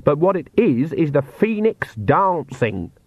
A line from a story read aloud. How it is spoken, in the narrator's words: said Granny sharply